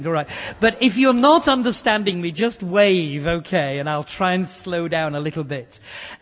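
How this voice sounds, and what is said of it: Speaker with a noticeable accent. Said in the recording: “I hope you'll understand my non-accent. People come up to me and say, oh, I love your accent.”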